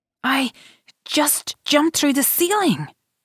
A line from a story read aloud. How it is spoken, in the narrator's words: he exclaimed, wild-eyed